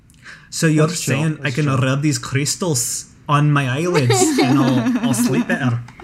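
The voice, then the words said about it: Put-on Scottish accent. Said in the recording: “Everything's funny in a Scottish accent.”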